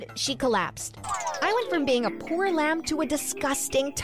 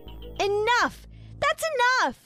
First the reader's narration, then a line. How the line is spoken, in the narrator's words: I shouted